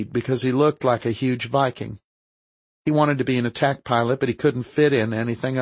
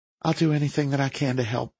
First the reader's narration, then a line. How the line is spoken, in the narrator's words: she said softly